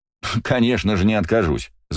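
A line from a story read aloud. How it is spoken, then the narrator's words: Laughing. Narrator (Russian): засмеялся я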